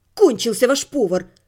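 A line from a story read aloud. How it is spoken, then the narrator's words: Irritated reply. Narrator (Russian): раздраженно ответила я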